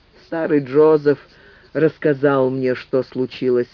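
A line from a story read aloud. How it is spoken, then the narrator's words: Calm mother's reply. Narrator (Russian): спокойно ответила мать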